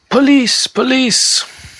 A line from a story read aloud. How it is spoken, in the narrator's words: In the not-too-far distance, you can hear cries of